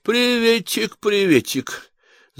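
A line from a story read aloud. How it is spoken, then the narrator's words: Nasal drawl. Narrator (Russian): загнусавил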